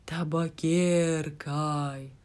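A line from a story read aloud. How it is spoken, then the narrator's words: Sepulchral voice. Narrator (Russian): сказала Джо могильным голосом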